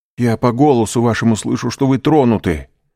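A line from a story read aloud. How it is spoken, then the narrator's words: Exclamation. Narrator (Russian): воскликнул Дантес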